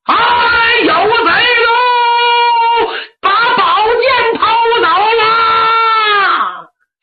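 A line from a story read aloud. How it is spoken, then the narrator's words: Shouting into the distance. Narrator (Chinese): 冲着远处喊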